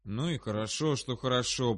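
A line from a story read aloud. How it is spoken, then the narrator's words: Muttering. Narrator (Russian): пробормотал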